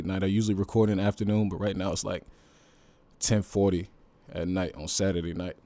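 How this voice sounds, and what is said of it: Slightly worn, tired voice. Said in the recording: “My voice is a little, you know, a little worn right now”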